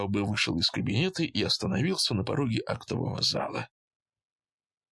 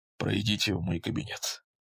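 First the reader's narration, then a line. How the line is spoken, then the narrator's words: Quiet. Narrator (Russian): тихо сказал фон Таубе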